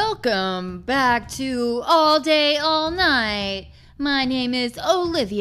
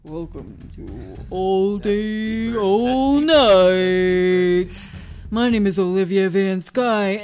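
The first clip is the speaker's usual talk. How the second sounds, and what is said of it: Artificially deep, man-like voice. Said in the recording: “do a deep voice ... I sound like a man when my voice is this deep”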